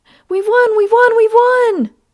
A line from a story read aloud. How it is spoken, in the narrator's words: Jane and her mother screamed together